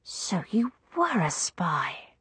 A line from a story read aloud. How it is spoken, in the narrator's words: I whispered, much impressed